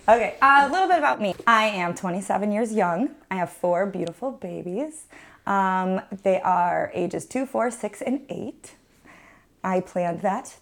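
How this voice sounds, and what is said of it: Calm, smooth radio-style voice. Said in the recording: “We like your radio voice. ... I'm trying to stay nice and calm because I have a very loud voice.”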